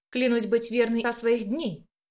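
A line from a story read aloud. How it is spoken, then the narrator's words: Crisp measured words. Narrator (Russian): отчеканила графиня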